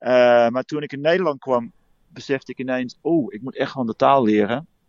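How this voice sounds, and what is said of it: Dutch with clear Australian accent. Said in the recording (Dutch): “heel goed Nederlands praat, maar dat er ook wel een heel duidelijk accent aan hangt ... I'm an Aussie”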